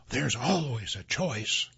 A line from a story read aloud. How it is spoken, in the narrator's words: a voice whispered in the back of his mind